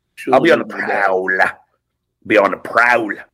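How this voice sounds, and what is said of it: Creepy character voice. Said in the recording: “creepy voice”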